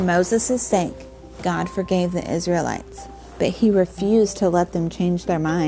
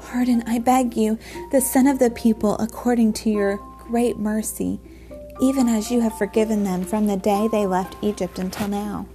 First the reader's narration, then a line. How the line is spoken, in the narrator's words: And Moses pleaded